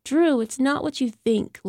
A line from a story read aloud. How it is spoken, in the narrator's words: Lenora whined